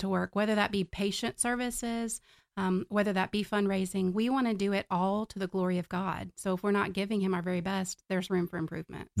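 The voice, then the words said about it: Southwest Virginia mountain accent. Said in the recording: “if you hear that in my voice, it's Virginia. It's Southwest Virginia from the mountains.”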